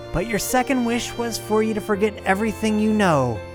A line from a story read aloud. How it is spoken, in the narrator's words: she cackled at the poor man